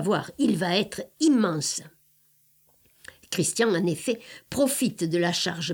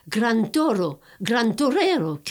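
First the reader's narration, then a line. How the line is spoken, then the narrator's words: Wild breeder shouting. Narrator (French): crie l'éleveur déchaîné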